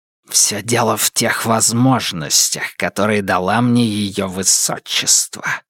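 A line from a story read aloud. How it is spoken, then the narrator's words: Hissed. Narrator (Russian): прошипел он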